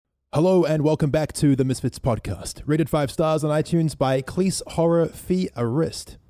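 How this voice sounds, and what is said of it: Strange mixed English accent. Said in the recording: “can't tell if Fitz has an American, New Zealander, Aussie, British, or retarded accent ... My accent is very strange.”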